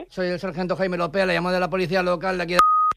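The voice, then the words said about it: Hoarse, angry policeman voice. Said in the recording (Spanish): “poner la voz un poco ronca para simular ser un policía bastante cabreado”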